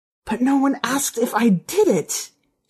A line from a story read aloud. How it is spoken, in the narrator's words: she said, her voice a hoarse whisper